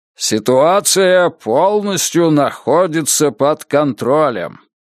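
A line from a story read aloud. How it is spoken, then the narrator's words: Booming over crowd noise. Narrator (Russian): уверил он присяжных зычным голосом, перекрывавшим шум толпы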